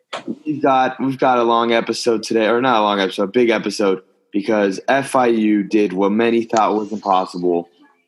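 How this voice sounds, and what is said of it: Slightly raspy voice. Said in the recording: “My voice is a bit raspy because of all the screaming I was doing”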